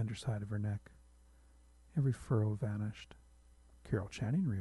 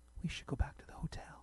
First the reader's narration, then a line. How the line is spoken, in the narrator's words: whispered